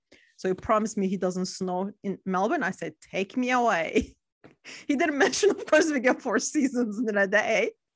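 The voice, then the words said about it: Turkish-American accent. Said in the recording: “I still sound like I just arrived from America ... it's the Turkish-American accent, which you don't hear here”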